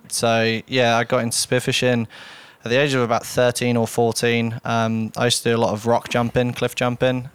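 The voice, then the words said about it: Faint British accent. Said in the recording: “a faint UK accent”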